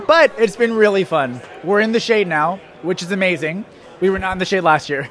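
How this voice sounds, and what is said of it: Hoarse, strained voice. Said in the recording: “My voice is gone. If you would have come yesterday, it would have been even more gone... my voice is just really, really gone”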